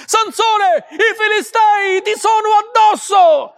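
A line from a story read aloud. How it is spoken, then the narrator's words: Shouted again. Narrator (Italian): gridò di nuovo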